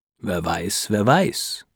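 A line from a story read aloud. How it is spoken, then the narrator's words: Quiet answer. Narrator (German): antwortet Patrick leise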